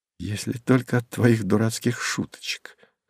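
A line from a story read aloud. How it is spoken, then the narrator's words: Tender, languid complaint. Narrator (Russian): хотела возмутиться Александра, но, нежно улыбнувшись, посетовала, томно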